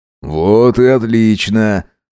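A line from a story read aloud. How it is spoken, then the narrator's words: Approving snort. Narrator (Russian): Максимилиан одобрительно хмыкнул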